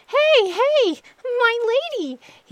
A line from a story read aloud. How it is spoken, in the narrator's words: cried out